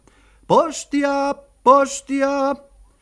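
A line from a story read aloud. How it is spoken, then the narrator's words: Parrot shouting. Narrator (Finnish): papukaija Posteli Joo huusi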